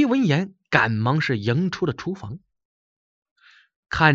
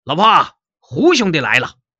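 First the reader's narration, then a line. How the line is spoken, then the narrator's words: Loud shouting. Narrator (Chinese): 李贺高声嚷嚷着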